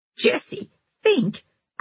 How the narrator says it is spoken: cried Miranda

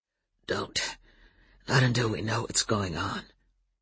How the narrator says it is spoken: Adam said hoarsely

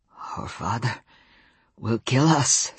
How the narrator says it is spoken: Sam said, his voice slow and thick with Welsh intonation

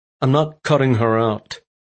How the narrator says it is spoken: he said coldly

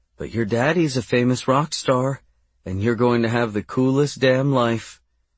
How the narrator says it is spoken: Casey cooed

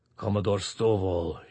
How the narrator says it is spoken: he rumbled

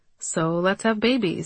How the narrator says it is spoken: he said

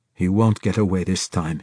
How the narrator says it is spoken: he said

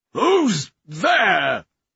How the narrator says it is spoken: cried

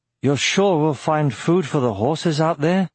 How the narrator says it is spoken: queried Aragorn, slurring his words

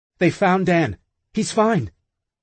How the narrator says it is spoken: She blurts

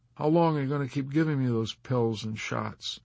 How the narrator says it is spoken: Yossarian asked him

